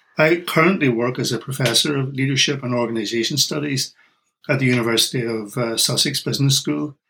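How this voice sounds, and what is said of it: Northern Irish accent. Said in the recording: “my accent is Irish. I come originally from Northern Ireland.”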